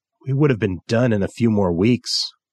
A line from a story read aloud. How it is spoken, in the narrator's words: said bitterly